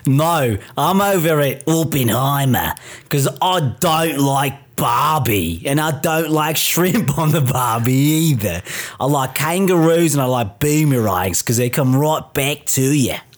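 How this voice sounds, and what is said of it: Put-on Australian accent. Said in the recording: “is talking with an Australian accent”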